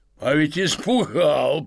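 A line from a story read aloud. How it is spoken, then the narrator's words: Man speaking, delighted guffaw. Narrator (Russian): проговорил мужчина и захохотал от удовольствия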